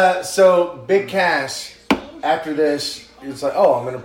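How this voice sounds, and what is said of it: Usual voice. Nothing is said of it.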